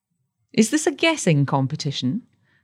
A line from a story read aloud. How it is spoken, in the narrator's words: asked David blandly